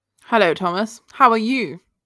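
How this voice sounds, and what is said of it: Fake posh radio voice. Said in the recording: “very, very posh ... I was copying your voice ... radio voice ... it's very fake”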